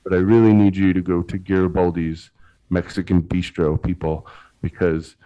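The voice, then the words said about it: Serious public radio announcer voice. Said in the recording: “I got my real serious NPR public radio voice”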